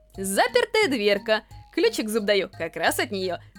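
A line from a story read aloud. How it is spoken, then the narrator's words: Cheerful summing up. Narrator (Russian): Весело подытожил Сора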